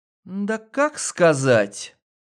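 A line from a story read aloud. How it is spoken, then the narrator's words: Unenthusiastic drawl. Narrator (Russian): Протянула она без восторга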